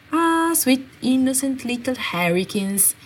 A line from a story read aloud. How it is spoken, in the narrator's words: Fred sighed